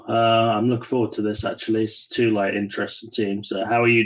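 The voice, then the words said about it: English accent. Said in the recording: “that is an English accent”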